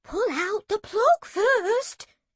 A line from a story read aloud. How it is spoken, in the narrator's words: gasped Granny 2